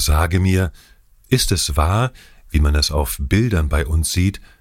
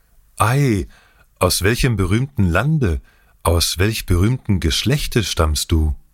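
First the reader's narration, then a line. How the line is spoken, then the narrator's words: Young man, innocent joy. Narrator (German): Mit unschuldiger Freude rief der Jüngling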